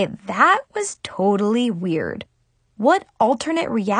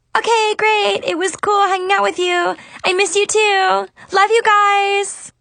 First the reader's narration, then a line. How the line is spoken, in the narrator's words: suddenly shouted